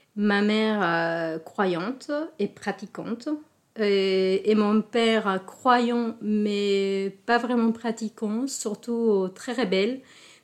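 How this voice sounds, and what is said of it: Slight Mexican accent in French. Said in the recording (French): “Elle est mexicaine ... un léger accent”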